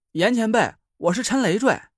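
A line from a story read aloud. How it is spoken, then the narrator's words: Calling out. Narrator (Chinese): 我叫道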